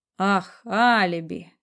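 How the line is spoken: Gloomy speech. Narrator (Russian): мрачно проговорил Барсуков

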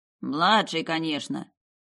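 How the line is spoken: Grumbling coachman. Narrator (Russian): проворчал извозчик

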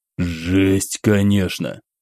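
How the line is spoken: Hoarse mutter. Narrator (Russian): хрипло пробормотал, прикусив губу

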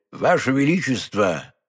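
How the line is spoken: Plain. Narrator (Russian): ответил кардинал

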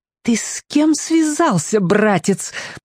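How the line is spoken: Hiss. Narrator (Russian): прошипела она

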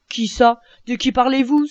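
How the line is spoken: Exclaimed. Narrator (French): s'écria Jean

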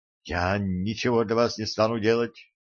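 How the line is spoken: Trembling voice. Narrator (Russian): дрожащим голосом произнесла

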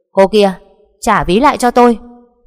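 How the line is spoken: Shouting. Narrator (Vietnamese): Long quát lên

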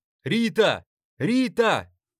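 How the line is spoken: Mother shouting. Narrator (Russian): закричала мама

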